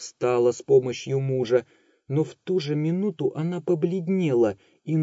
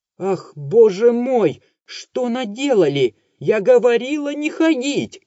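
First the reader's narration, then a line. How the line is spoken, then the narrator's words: Shouting. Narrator (Russian): кричала Варвара Алексеевна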